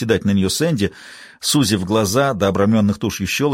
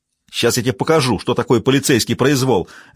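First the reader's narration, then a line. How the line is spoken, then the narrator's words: Barked reply. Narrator (Russian): рявкнула в ответ Джейн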